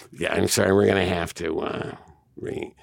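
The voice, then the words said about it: Impression of the co-host. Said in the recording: “I'm doing an impression of you, by the way.”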